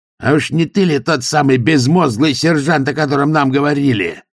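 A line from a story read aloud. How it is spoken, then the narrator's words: Growl. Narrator (Russian): зарычал задержанный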